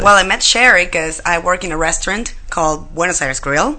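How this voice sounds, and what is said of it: Argentinian accent in English. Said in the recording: “Great accent, too.”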